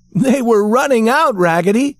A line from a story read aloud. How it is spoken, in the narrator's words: shouted all the other dolls